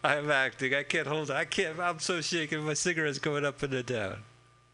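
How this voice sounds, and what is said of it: Put-on Italian gangster accent. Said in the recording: “That's my Italian accent, ladies and gentlemen... That's very good... My Italian gangster accent.”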